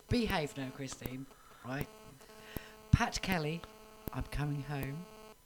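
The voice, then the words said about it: Polished phone voice. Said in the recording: “That was her best phone voice.”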